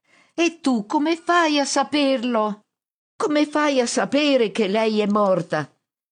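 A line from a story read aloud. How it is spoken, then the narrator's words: Shouted retort. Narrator (Italian): Mi urla di rimando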